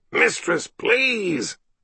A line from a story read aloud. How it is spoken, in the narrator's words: he whined